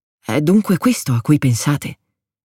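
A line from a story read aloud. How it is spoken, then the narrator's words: Murmured. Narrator (Italian): mormorò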